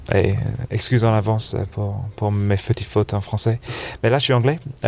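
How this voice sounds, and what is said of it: English accent with slight American tinge. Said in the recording (French): “je suis anglais... d'où mon accent charmant... mon accent un peu semi-américain, anglais... j'ai gardé un petit accent américain”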